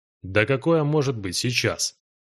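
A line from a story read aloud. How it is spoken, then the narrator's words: Southerner's skeptical grunt. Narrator (Russian): хмыкнул южанин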